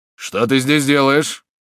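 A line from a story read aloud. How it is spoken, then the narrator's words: Surprised angry question. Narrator (Russian): удивленный присутствием Жокриса, солдат сердито спросил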